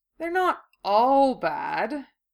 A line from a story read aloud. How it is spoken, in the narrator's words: Draco said, his voice still conveying doubt